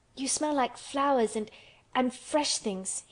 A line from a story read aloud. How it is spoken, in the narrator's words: he cried out quite joyously